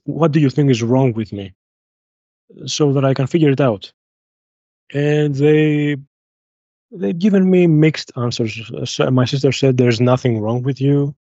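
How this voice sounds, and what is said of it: Heavy accent. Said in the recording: “sorry for the heavy accent.”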